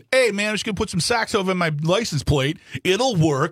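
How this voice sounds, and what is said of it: Put-on New Jersey accent. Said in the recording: “I'll do the accent”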